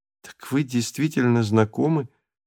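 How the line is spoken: Realizing, with a sigh. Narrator (Russian): наконец-то поняла Галя и почему-то вздохнула

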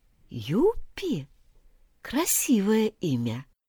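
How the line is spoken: Quiet reply. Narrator (Russian): тихо отозвалась рапида

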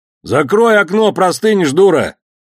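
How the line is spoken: Shouting man. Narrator (Russian): крикнулся тот же мужик

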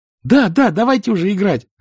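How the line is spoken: Joyful shout. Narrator (Russian): радостно крикнула Капелька

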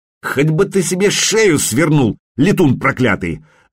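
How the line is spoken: Coachman barking. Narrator (Russian): рявкнул ему вслед возница

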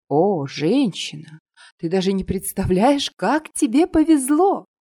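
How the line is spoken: Grandiose exclamation. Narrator (Russian): С пафосом воскликнула Света

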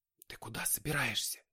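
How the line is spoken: Whispered question. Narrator (Russian): почему-то шепотом спросила она

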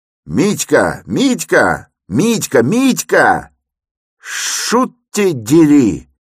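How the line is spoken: Shout ending in shriek. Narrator (Russian): Крик закончился визгом

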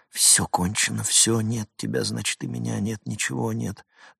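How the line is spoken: Muffled mumble. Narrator (Russian): Он припал губами к ее пальцам, забормотал

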